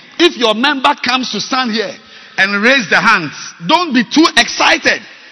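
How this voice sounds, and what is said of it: Shouting preacher. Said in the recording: “I'm very sorry I'm shouting.”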